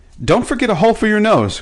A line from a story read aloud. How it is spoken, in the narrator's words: cried Betsy